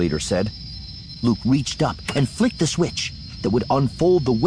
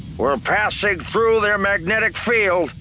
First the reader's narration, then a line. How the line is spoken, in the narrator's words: Red Leader said, his voice over the comm crackling with interference